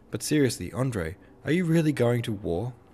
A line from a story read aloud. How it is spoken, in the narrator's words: said, sighing